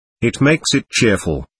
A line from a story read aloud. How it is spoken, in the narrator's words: Grushenka said crossly